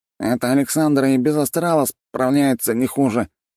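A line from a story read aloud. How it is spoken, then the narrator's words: Mumbling officer. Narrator (Russian): промямлил старший лейтенант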